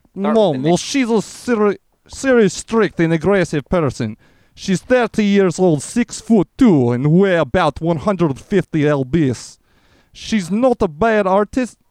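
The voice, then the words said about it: Put-on Russian accent. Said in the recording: “Maybe like a Russian accent.”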